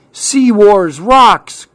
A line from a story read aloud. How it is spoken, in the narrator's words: cried Clark